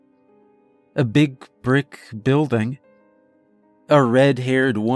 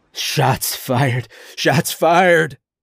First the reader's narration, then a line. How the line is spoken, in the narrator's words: a voice screamed over a radio